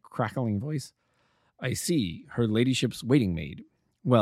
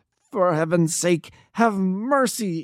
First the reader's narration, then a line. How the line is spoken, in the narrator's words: he shrieked